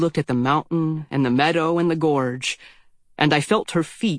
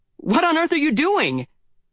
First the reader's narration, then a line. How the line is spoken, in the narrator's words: I cried